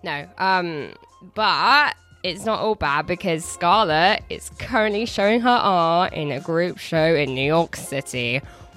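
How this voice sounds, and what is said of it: English accent. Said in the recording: “I'm an England fan, as you can tell by my accent”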